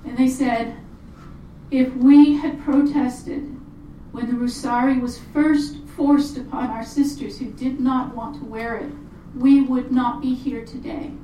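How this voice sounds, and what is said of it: Choked-up, emotional voice. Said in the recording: “I get choked up whenever I relate this... that's why I'm getting choked up.”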